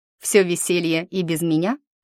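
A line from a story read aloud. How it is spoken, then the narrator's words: Snorting. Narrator (Russian): фыркнула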